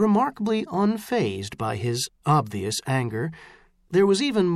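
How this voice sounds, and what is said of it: Usual voice. Nothing is said of it.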